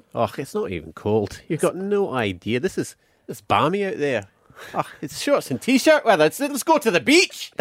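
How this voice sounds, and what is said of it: Put-on Scottish accent. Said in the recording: “put on your good Scottish accent”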